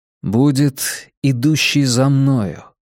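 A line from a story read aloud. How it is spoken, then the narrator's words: Slow. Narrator (Russian): медленно произнес он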